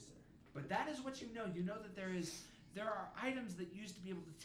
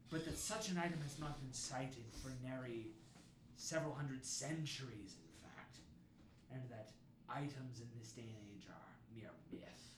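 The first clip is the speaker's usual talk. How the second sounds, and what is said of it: Pirate character voice. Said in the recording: “Why am I doing this voice? ... Because you are a pirate.”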